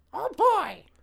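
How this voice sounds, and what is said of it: High-pitched cartoon character voice. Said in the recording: “Can you do a Mickey impression? ... I sounded like Toad that from Mario. ... you sound like a cracked-out Marge.”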